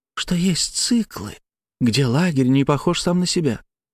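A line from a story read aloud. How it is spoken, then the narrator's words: Whispered after a pause. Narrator (Russian): начала она после долгой паузы, почему-то шепотом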